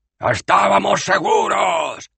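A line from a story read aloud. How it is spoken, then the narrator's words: Shout. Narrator (Spanish): gritó un discípulo de la estrella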